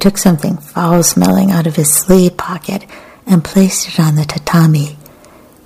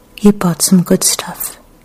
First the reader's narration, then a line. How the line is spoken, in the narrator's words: Kikuko said in a gentle voice that didn't betray any emotion